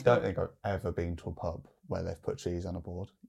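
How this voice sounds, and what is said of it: Birmingham (Brummy) accent. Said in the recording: “That was very Birmingham. ... Very Brummy. ... Birmingham accent just came out”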